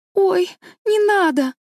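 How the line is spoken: Alarmed cry. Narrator (Russian): вскрикнула бедная Энн

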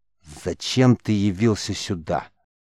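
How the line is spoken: Stern, angry question. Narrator (Russian): строго и даже зло спросил хранитель

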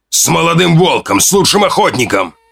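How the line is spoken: Shouting. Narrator (Russian): Он кричал

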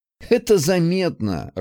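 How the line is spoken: Laughing. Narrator (Russian): рассмеялся он

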